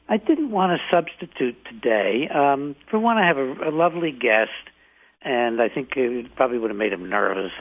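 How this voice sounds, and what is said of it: Slightly hoarse voice. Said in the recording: “my voice is a little hoarse ... fever last night”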